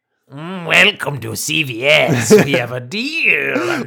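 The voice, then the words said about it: Imitates another person's voice. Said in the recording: “Are you imitating me now?”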